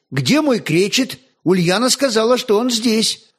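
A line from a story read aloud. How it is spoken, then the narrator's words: Exclaimed. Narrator (Russian): воскликнул он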